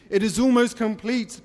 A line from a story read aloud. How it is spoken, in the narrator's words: Betrasa said nervously